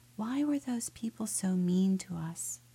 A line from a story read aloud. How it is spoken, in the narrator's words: Boniface hesitated, then he said softly